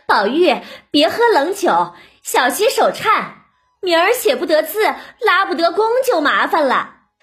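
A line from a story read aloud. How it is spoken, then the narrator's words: Laughing reminder. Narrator (Chinese): 凤姐儿 笑着提醒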